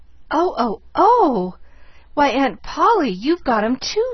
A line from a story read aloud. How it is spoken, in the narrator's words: she cried rapturously